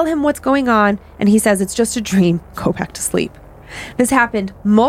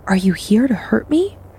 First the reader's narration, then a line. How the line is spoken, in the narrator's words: Finding I can whisper, I softly say